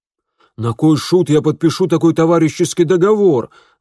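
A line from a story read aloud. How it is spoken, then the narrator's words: Rough shout. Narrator (Russian): грубо крикнул Куэнто Толстый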